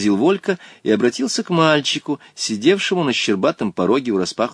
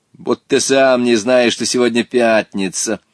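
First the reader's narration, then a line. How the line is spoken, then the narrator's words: Mocking boy's reply. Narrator (Russian): насмешливо ответил мальчик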